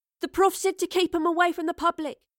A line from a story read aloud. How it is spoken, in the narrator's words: she cried